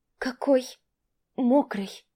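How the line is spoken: Soft babbling. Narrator (Russian): пролепетала

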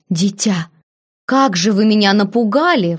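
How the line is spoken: Old woman exclaiming. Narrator (Russian): воскликнула старая служанка

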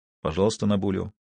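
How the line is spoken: Quiet. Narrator (Russian): тихо произнес Коронелли

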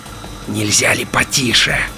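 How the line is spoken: Vile wheezing creature voice. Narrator (Russian): мерзким голосом просипела тварь

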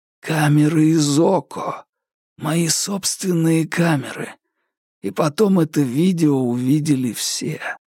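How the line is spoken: Barely audible, strained. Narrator (Russian): еле слышно выдавил

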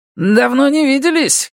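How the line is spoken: Shout. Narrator (Russian): крикнул он

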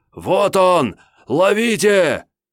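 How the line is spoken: Yelled. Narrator (Russian): заорал

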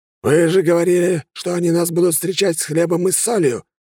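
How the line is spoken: Barked. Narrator (Russian): рявкнул император

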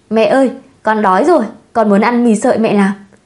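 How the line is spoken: Laughing, coaxing whine. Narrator (Vietnamese): Khương Vũ bật cười, làm nũng

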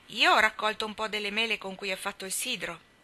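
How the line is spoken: Plain. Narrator (Italian): disse Demi

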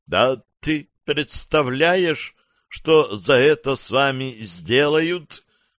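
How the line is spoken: Exclaiming. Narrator (Russian): воскликнул один

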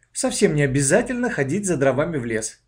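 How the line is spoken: Plain. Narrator (Russian): сказала мама

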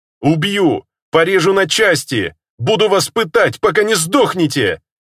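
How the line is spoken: Furious shouting. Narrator (Russian): кричал я в ярости

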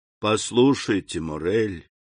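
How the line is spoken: Gentle. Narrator (Russian): мягко сказал граф

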